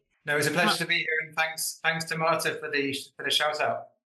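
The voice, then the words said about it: British English accent. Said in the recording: “we hear that lovely accent. And to our non-UK audience”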